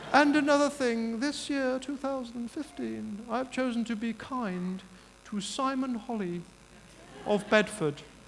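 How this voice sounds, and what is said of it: Impression of the Queen. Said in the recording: “This is my Queen impression.”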